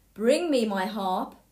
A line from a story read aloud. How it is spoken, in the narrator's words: the giant shouted